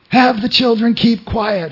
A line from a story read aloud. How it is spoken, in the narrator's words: shouted